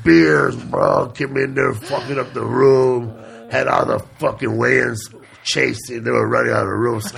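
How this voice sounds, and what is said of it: Impression of Joe Diaz. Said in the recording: “Joe Diaz has to be like ... That's a great impression ... That's a good fucking impression.”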